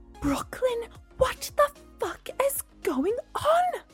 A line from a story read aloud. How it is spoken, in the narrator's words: She hissed